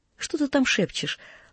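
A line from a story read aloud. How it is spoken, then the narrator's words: Gentle motherly question. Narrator (Russian): ласково спросила мать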